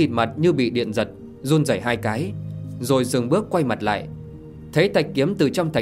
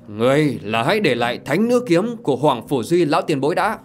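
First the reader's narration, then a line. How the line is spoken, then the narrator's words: Loud shout. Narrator (Vietnamese): một tiếng quát to vang lên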